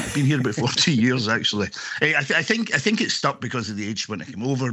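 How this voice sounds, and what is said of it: Scottish accent. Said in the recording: “you've just arrived from Scotland ... you haven't really lost much of your accent”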